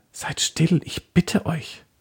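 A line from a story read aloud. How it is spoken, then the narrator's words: Whisper. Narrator (German): Susanne flüsterte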